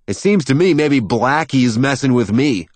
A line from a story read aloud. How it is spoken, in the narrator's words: I shout